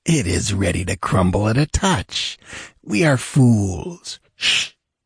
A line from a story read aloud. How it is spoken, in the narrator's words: It was an urgent hiss of command from the large man who held the jewel